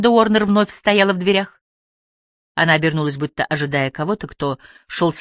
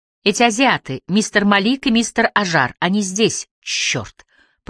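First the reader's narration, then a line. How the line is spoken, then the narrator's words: Hissing. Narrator (Russian): прошипела Эмили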